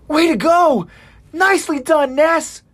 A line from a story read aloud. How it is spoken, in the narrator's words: Armin yells out